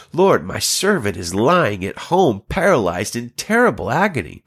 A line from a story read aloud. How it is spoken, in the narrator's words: a centurion came to him, pleading with him